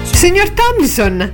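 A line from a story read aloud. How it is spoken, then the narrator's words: Exclaimed. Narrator (Italian): esclamò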